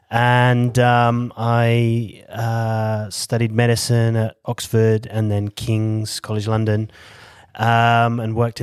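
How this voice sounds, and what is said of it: British English accent. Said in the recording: “You've got an accent ... as you can tell, I'm from the UK, from the South Coast, near Bournemouth”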